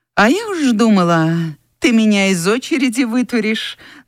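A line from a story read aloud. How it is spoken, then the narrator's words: Mocking. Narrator (Russian): насмешливо сказала Анфиса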